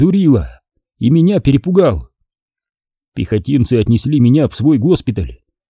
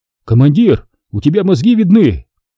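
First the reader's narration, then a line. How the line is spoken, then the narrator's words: Frightened. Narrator (Russian): Стрелок говорит испуганно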